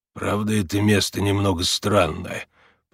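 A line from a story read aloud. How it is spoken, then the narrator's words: Muttering under breath. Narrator (Russian): проворчал Макс себе под нос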